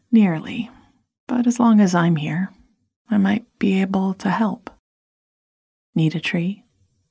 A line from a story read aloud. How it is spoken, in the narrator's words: He sighed and smiled gratefully